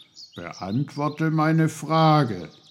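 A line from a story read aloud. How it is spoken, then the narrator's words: Stern. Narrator (German): sagte Onkel Pfefferkorn streng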